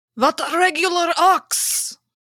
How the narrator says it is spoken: shouting

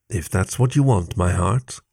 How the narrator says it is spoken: Carrie murmured, her eyes already closed

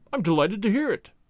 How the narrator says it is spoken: he said

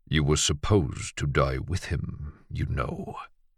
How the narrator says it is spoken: Emerson said quietly enough that no one but Lucien could hear it

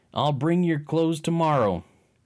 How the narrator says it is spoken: He hollered

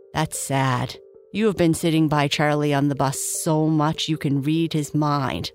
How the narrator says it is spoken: laughed Rachel

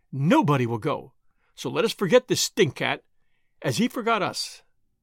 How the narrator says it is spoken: exclaimed Frau Prinsloo triumphantly

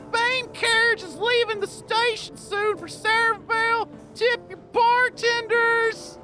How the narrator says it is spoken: a woman walks into the tavern, and she screams out

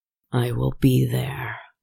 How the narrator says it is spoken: he said with a growl

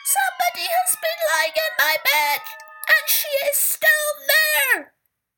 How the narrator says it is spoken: said in his little baby bear's squeaky voice

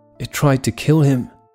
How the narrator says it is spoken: gasped Jackie

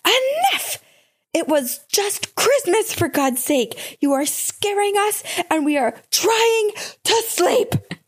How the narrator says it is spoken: yelled to her

